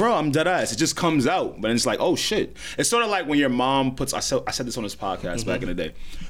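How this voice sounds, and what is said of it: Usual voice. Nothing is said of it.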